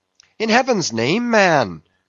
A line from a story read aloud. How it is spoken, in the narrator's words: cried Stubb